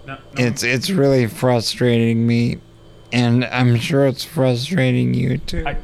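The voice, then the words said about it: Voice sounds impaired, slower speech. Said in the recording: “I'm sorry for how I sound. I'm sorry for my voice... you don't sound exactly like yourself... I can't talk as quickly as I used to”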